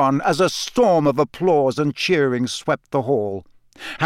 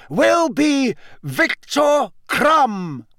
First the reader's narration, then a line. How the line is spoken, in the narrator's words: read in a strong, clear voice